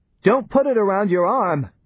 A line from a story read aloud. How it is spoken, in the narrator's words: shouted Johnny